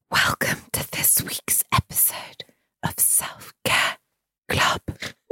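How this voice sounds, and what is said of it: Quiet whispered speech. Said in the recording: “You speak up a bit. I can't hear you. Why are you whispering?”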